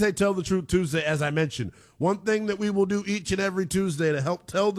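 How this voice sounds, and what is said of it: Usual voice. Nothing is said of it.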